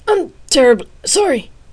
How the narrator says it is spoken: the elder man stammered

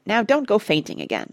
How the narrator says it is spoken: said Parrot testily

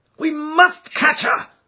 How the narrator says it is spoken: cried Holmes between his teeth

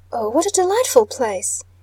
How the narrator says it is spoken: exclaimed Mrs

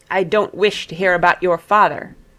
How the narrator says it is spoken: he snapped

